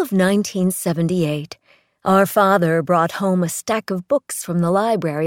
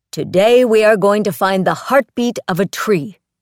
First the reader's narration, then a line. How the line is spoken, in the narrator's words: he bellowed into our bedrooms